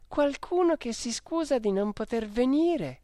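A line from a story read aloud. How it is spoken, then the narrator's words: Exclaiming together. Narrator (Italian): Luisa e Virginia esclamando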